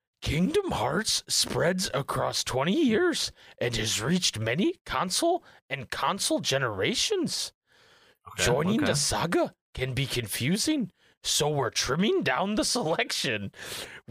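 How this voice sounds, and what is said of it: Yoda impression. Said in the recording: “I'm gonna read it in my Yoda voice.”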